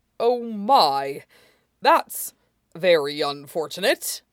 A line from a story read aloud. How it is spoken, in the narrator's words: said, a wildly inappropriate smile